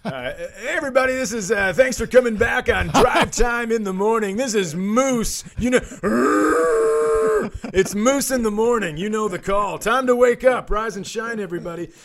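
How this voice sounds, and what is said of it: Morning radio DJ voice. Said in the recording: “I like to use a morning radio voice to get you into it ... So I like to go morning radio voice.”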